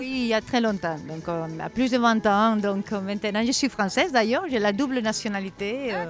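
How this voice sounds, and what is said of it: Foreign accent speaking French. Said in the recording (French): “on entend, voilà, on entend l'accent ... Mon père est brésilien, ma mère espagnole”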